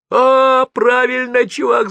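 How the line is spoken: Yelled. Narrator (Russian): заорал Паша

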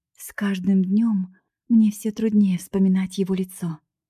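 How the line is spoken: Inner sigh. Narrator (Russian): вздохнула про себя Скарлетт

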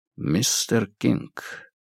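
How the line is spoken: Quiet. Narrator (Russian): негромко произнес Сигерсон

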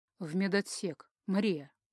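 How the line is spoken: Gloomy explanation. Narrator (Russian): мрачно пояснил

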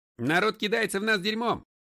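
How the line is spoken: Shout. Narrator (Russian): крикнул Ларри

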